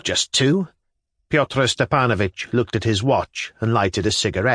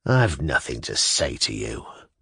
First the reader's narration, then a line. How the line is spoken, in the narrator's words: muttered Kirillov